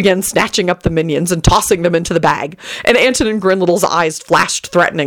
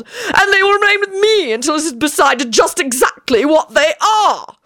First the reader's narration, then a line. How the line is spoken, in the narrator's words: he howled